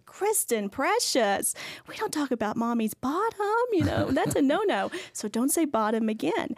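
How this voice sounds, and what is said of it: Sweet, gentle mommy voice. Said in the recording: “in my good mommy voice”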